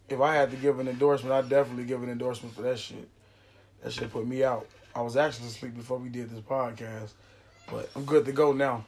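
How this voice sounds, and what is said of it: Slightly raspy voice. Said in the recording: “My shit probably a little raspy”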